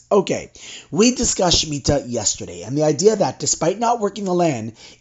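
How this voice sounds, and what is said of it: Slightly hoarse voice. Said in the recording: “My voice is a little hoarse from all the singing on Shabbos.”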